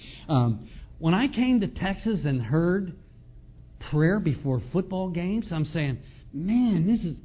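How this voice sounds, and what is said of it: Northern US accent. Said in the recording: “I'm from the North, by the way. You can tell by my accent, I'm a Yankee.”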